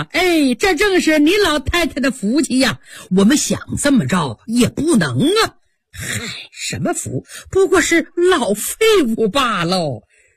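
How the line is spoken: Laughing. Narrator (Chinese): 刘姥姥笑了

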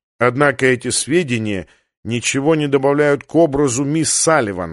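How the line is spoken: Snort. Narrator (Russian): хмыкнул Ван Хорн

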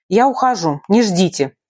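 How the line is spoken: Blurted. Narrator (Russian): выпалила

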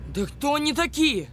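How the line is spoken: Shouting. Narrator (Russian): выкрикнул Миша

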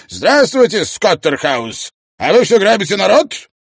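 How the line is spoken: Barking. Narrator (Russian): Мистер Сандбах рявкнул

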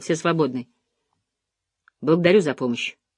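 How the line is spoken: Curt, clipped. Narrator (Russian): он отрывисто сказал

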